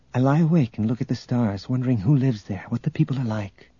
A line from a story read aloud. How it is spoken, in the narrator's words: Tenenyul said softly